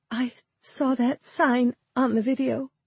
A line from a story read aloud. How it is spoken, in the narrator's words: she said, her voice shaking slightly